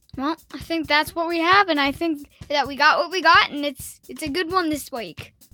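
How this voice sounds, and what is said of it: Put-on Australian accent. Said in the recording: “you're Australian all of a sudden.”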